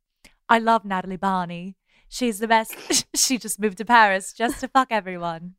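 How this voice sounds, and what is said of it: American doing a British accent. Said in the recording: “your American accent up in a competition against Ellie's British accent ... That's my British accent ... When an American does a British accent, they just turn into Keira Knightley ... is based on Piper like, Perabo's British accent”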